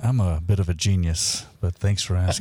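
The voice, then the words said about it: Smooth, low late-night radio voice. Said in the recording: “the midnight sexy voice ... We all know you have a great radio voice ... the hot tub voice ... coming back on the smooth ... jazz”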